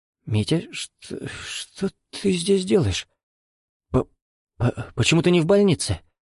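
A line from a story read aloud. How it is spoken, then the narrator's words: Strained, faltering voice. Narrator (Russian): С трудом выдавила она, цепляясь за дверной косяк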